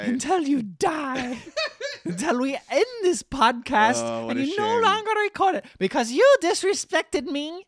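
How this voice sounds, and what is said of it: Silly Leprechaun character voice. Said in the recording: “Mr. Leprechaun ... doing a silly voice”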